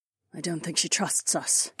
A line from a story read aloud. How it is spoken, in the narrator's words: Kat muttered